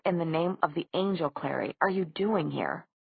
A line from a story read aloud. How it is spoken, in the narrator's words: the harshness of his tone